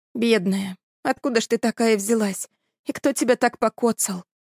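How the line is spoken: Soft, tender girl's voice. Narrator (Russian): Тихо, ласково заговорила девушка

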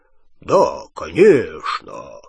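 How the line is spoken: Low-voiced reply. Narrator (Russian): низким голосом Ранкорна ответил Гарри

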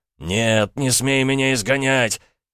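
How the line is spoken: Sudden yell. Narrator (Russian): Внезапно князь заорал

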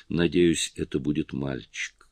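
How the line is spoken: Sad smiling speech. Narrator (Russian): Сильвана печально улыбнулась и сказала

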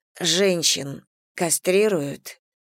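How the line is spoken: Choked strained question. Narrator (Russian): сдавленным голосом спросила я

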